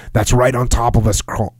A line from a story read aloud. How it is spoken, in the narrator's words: Whitman cried, delighted